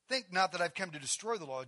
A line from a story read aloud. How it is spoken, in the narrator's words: Jesus said